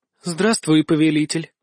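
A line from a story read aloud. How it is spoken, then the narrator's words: Languid breath in ear. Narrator (Russian): томно выдохнула мне прямо в ухо Альканиэль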